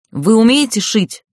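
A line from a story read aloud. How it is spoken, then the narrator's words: Loud growl. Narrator (Russian): рыкнула я, так что подпрыгнули все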